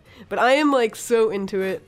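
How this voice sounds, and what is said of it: Excited, enthusiastic voice. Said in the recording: “I don't know if you can tell by my voice, but I really, like, enjoy... I'm, like, really excited about it.”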